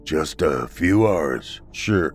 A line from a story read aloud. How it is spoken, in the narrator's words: the old man replied in a monotone voice